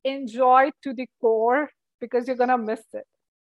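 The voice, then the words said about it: Elated, excited voice. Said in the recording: “as you can hear in my elated voice”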